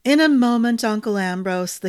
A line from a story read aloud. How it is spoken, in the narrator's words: the king sighed